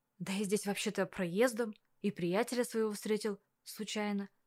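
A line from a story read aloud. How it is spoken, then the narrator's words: Mumbling. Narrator (Russian): промямлил Кирилл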